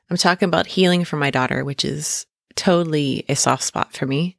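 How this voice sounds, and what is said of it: Choked-up, emotional voice. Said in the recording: “little choked up in my voice”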